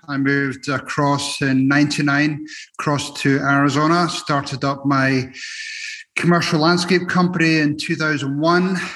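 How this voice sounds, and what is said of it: Scottish accent. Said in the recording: “you can tell by the accent, I'm originally from Edinburgh, Scotland.”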